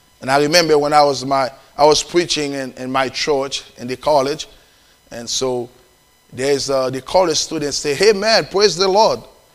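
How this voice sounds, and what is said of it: Haitian-accented English. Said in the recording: “I have Haitian accent ... They don't understand my accent ... I have a Haitian accent”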